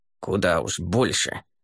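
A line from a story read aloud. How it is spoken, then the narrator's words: Old man's grumble. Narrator (Russian): проворчал престарелый генерал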